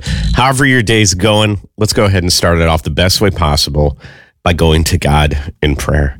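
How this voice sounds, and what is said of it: Sick, unwell-sounding voice. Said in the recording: “I've just been smacked ever since then ... try and actually talk like a normal person”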